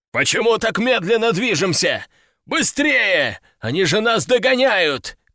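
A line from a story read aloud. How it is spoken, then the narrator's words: Commander shouting. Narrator (Russian): кричал командир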